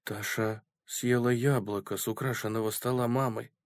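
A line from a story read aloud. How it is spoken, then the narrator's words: Whisper. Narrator (Russian): прошептал Энди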